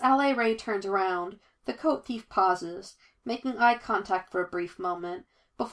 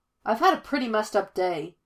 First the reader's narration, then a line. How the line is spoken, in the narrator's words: the coat thief snaps back at her